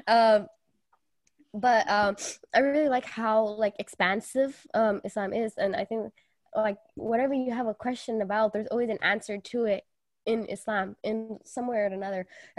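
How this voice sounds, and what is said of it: Sick, stuffy voice with a cold. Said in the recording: “I'm sorry, I have a cold,... I'm sorry, I sound like somebody”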